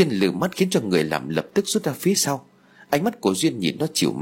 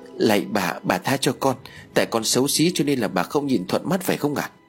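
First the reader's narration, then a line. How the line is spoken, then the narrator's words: Frightened tearful pleading. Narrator (Vietnamese): sợ hãi, hai mắt ướt nhẹp nước mắt, miệng rối rít van xin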